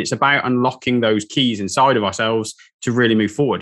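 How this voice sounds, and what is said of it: Polished, broadcast-style speaking voice. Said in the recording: “I think you have an incredible podcast voice.”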